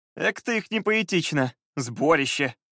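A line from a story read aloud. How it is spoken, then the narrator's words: Cheerful laughing. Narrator (Russian): рассмеялся, все еще не растерявший хорошее настроение от утренней прогулки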